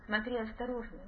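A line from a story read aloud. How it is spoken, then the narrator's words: Quiet. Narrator (Russian): тихо сказал он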